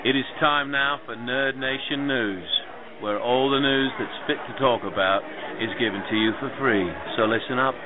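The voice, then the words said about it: Fake British accent. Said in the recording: “giving you my fake British accent”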